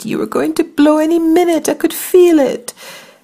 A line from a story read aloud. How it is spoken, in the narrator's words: I squeaked